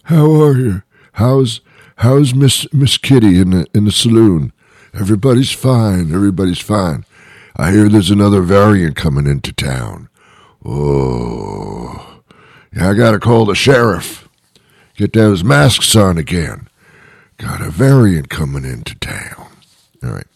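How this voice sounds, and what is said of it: Old West cowboy voice impression. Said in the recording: “that's my Wild West impression. ... It wasn't that good.”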